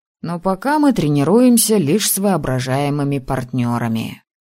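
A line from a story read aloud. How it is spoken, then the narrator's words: Snort. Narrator (Russian): хмыкнул он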